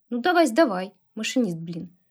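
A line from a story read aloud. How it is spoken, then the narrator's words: Smirking grunt. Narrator (Russian): хмыкнул Иваныч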